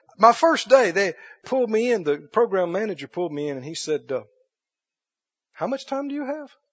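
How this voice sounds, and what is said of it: Mississippi Southern American accent. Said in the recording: “From Mississippi. ... Don't let the accent fool you.”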